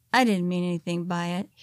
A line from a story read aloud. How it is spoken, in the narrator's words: spewed quietly, knowing he was caught in his shame